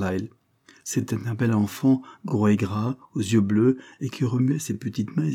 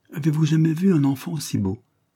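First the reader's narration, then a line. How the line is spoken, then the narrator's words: Exclaimed. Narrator (French): s'écria-t-elle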